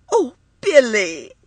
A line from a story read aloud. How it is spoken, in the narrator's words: she cried